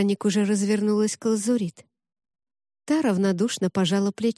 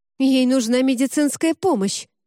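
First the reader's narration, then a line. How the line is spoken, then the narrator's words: Curt, sharp. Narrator (Russian): резко бросил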